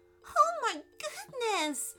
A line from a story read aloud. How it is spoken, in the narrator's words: squeaked Allison